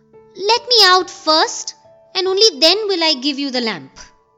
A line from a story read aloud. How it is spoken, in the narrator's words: Aladdin called out